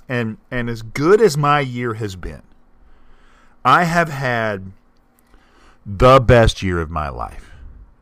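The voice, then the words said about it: Emotional, moved voice. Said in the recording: “If you hear it in my voice, I'm not screwing around. ... I am moved”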